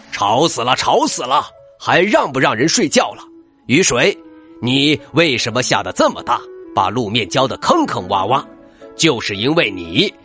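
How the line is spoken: Roaring angrily. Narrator (Chinese): 狮子咆哮道

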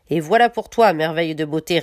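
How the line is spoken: Sneering old woman. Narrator (French): ricana la vieille

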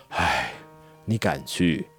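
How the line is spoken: Old man's long sigh. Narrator (Chinese): 老者又长叹了一声

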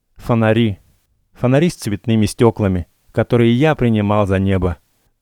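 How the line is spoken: Loud laughter. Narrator (Russian): хохотал он

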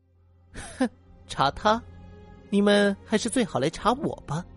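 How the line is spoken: Sneering. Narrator (Chinese): 小红冷笑了一声

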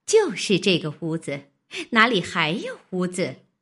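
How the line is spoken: Laughing. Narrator (Chinese): 那媳妇笑道

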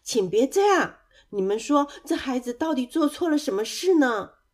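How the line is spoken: Loud protective cry. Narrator (Chinese): 鸭妈妈大声的叫着说

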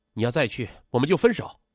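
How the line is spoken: Angry. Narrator (Chinese): 沈珊珊愤怒道

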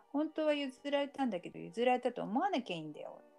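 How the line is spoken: Laughing. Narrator (Japanese): って言って笑ってる

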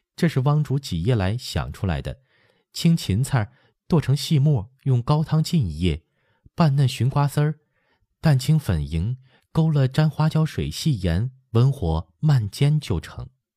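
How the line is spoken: Smiling. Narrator (Chinese): 打头的抿口笑道

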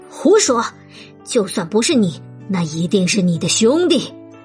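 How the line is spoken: Rough harsh voice. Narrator (Chinese): 狼的声音粗暴起来

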